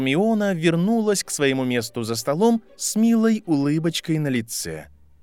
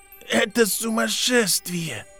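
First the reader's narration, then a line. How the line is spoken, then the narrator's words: Hoarse, exhausted. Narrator (Russian): прохрипел Невилл из последних сил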